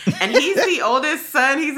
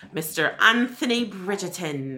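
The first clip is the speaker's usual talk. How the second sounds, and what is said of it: Bad put-on British accent. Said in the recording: “That's my terrible accent. ... Your British accent.”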